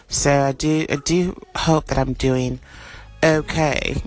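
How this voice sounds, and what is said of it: Attempted British accent. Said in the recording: “I do try to practice my, my British accent ... I can't keep it up.”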